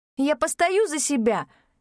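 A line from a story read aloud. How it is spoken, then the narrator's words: Indignant shout. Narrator (Russian): возмущенно крикнула я Аиду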